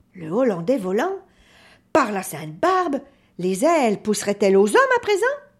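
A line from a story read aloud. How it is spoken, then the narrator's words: Sneering laugh. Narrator (French): Jacob ricana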